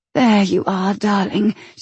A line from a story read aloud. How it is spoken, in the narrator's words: she whispered softly